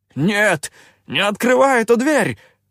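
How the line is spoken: Yelled. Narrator (Russian): заорал он

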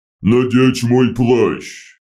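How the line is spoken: Harsh growl through helmet. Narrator (Russian): Огромная боевая машина заговорила на надракале, который сквозь рычащую решетку шлема показался еще грубее

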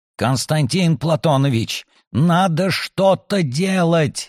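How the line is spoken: Strangled hoarse wheeze. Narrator (Russian): сдавленно просипел Сумароков

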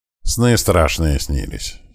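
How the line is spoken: Honest mumble. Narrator (Russian): честно пробурчал

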